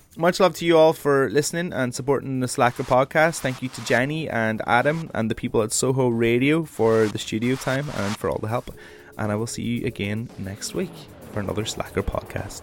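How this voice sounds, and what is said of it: Northern Irish accent. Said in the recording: “my accent goes back into the so it is. Hey, Northern Ireland accent, so it is.”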